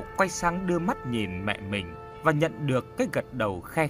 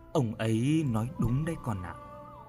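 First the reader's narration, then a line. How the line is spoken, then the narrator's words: Mother's sighing voice. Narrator (Vietnamese): mẹ anh thở dài rồi lên tiếng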